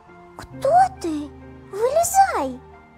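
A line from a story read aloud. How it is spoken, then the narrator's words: Frightened cry. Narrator (Russian): Испуганно вскрикнула Элла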